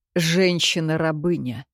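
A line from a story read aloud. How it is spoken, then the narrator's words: Snorting hmph. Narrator (Russian): хмыкнул Кир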